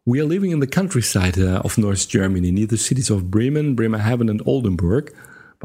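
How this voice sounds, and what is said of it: Dutch-accented English. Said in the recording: “my rather average English language skills combined with my Dutch accent.”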